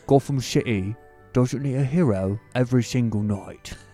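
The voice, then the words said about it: British accent impression. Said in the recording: “I don't know if it's solid Michael Caine, but it is a British accent.”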